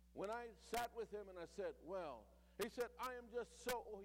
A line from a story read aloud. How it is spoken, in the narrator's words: he cried